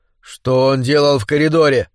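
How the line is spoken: Angry question. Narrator (Russian): сердито спросил Рикс

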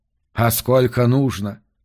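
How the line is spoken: Calm question. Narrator (Russian): спокойно спросил Йорк

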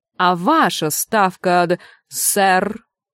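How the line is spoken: Growl. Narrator (Russian): Чудакулли прорычал

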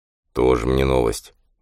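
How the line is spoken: Barely audible bitter mutter. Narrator (Russian): еле слышно и с горечью пробормотал Кенни

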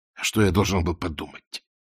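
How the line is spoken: Mumbling. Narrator (Russian): промямлил Воля

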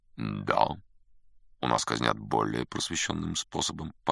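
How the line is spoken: Calm confirmation. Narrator (Russian): по-прежнему спокойно подтвердил Бэп

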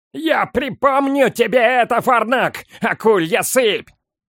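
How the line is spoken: Yelled. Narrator (Russian): заорал он

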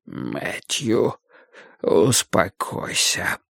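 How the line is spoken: Pained warning whisper. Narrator (Russian): предупредил Вудвард своим болезненным шепотом

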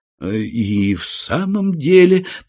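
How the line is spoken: Mumbling. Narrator (Russian): промямлил я

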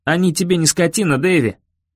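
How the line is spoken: Mildly angry. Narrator (Russian): сказал я даже не слишком зло

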